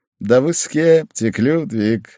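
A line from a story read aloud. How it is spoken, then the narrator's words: Laughing. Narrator (Russian): рассмеялся мой собеседник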